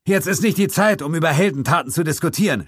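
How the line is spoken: Shouting back. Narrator (German): schrie ich zurück

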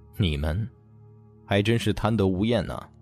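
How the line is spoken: Low menacing voice. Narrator (Chinese): 叶钟明眯着眼睛，低声吐出了一句话

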